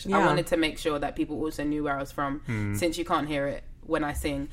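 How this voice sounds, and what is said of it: English accent. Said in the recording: “you didn't realize until you heard me speak that I was English ... hearing my accent”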